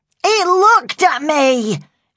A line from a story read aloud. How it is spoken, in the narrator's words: she shouted, still glaring at the frightened dog